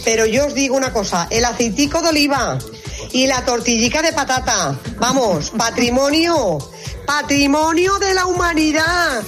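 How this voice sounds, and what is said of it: Aragonese Spanish regional accent. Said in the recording (Spanish): “Y con ese acento, ... casi te diría que también el ternasco de Aragón”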